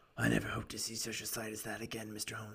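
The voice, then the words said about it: Raspy character voice. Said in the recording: “doing this raspy voice for him. I just imagine him with this, like, raspy voice”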